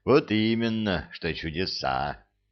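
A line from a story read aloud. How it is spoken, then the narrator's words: Sighing. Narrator (Russian): вздохнул Арсантен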